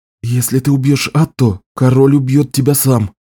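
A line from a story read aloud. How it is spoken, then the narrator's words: Quick whisper. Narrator (Russian): быстро шепнул ей Беннон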